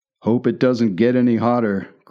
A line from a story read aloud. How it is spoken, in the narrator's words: growled the latter